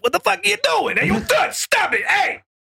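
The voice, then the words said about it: Goblin character voice. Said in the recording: “like a goblin accent”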